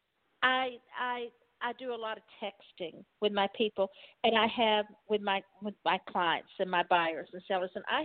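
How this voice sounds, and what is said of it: Southern Texas accent. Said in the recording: “I do have a Southern accent. I do have a Texas accent. It is here. It never left”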